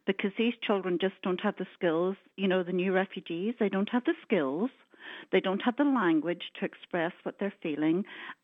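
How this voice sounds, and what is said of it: Northern Irish (County Antrim) accent. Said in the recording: “I couldn't place your accent until you said the word down. ... Antrim? ... You're absolutely right”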